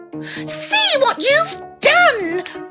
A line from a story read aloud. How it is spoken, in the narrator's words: they cried